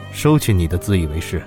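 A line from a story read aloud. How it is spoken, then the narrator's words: Icy cold. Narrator (Chinese): 冷少声音冰冷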